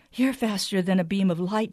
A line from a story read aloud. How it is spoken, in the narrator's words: panted